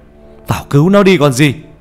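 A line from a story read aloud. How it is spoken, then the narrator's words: Alarmed shout. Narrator (Vietnamese): Nhận ra điều chẳng lành, ông thầy hét lên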